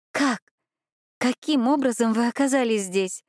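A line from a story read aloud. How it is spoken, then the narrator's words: Tearful questioning. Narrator (Russian): Сквозь слезы пыталась расспрашивать Бьянка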